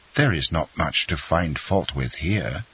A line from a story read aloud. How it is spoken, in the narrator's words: whispered Albert